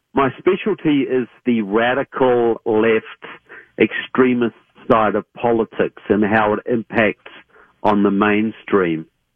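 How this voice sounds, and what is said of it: Southern New Zealand accent. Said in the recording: “I come from Christchurch, New Zealand, so I have a southern accent”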